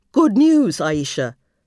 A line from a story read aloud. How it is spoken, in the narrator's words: Muhammad cried at last